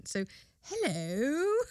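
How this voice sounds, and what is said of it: Put-on British accent. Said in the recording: “with a British accent.”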